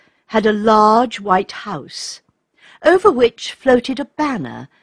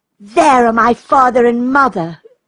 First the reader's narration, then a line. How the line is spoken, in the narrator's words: cried Raymond